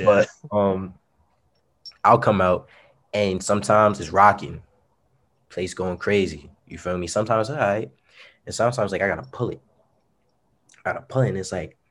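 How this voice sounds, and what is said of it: Hoarse voice. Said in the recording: “I've been yelling a lot lately, so my voice is kind of hoarse right now.”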